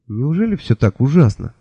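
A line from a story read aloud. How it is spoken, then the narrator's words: Plain. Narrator (Russian): спросил я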